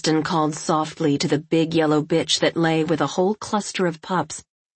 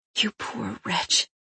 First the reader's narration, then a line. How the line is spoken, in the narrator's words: whispered Kristen